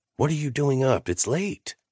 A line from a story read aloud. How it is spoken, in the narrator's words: I scolded in a whisper